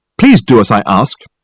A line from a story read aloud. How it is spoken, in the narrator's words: he snapped angrily